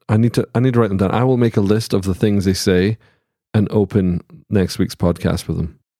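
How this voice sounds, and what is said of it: Scottish accent. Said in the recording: “all my American friends who think that I have a Scottish accent”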